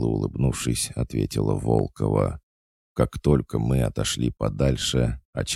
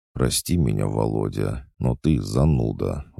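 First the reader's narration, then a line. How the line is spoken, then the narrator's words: Sighing. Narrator (Russian): вздохнул Толик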